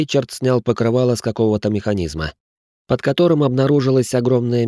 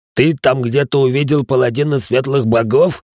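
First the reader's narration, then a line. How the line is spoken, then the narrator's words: Growled. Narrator (Russian): прорычал Рэй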